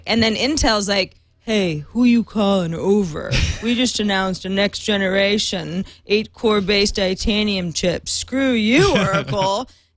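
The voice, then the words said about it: Mock imitation of Intel. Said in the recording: “my imitation of what happened between Oracle and Intel and HP today”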